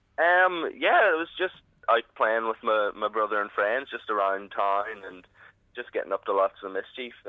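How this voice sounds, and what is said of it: Local Banbridge Northern Irish accent. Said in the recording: “I only realised you were from here just by the accent, obviously. That boy's from about this part of the world.”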